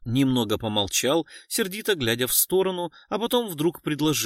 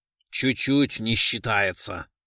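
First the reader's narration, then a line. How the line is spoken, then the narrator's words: Annoyed grumble. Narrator (Russian): проворчал Кричко, которому критика уже начала надоедать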